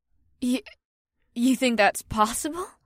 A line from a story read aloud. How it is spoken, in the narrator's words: Batari sputtered, and her eyes widened with a mixture of fear and intrigue